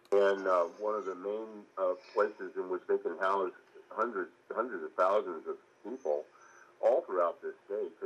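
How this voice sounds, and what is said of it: Muffled, hard-to-hear voice. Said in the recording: “his voice is pretty muffled here”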